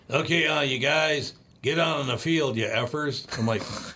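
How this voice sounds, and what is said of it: Impression of Jerry Burns. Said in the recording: “I do Jerry Burns, former head coach of the Minnesota Vikings”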